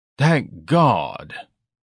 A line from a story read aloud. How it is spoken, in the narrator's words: Ignatius sighed